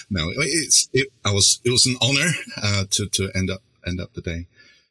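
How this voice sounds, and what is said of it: British accent. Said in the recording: “that wonderful British accent of yours”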